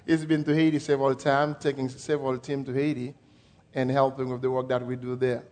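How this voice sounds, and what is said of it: French accent, speaking slowly. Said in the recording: “I am going to try to speak very slow so that you can understand my French accent as I speak English”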